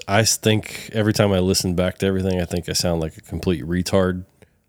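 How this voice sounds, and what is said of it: Smooth radio voice. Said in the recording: “you got the voice for it ... you got that smooth radio voice”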